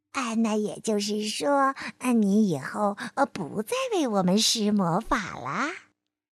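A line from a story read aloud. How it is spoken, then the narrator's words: Quiet question. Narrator (Chinese): 费迪南德小声的问道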